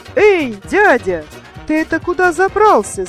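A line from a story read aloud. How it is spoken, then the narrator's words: Very loud shout. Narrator (Russian): закричал Комар Комарович на весь лес, да так громко, что даже самому сделалось страшно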